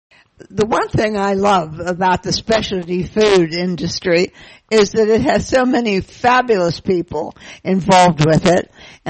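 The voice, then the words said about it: Pittsburgh accent. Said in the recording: “I don't say color right because my Pittsburgh accent”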